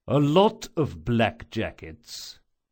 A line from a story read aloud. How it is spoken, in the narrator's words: Chains said slowly